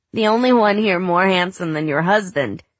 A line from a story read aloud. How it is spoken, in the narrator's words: said Becca Plonsky, laughing